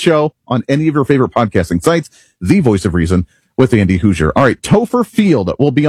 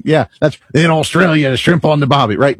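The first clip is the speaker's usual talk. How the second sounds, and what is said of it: Terrible put-on Australian accent. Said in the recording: “my Australian accent ... It's terrible.”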